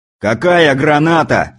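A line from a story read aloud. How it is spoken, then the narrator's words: Yelling. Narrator (Russian): заорал Кузнецов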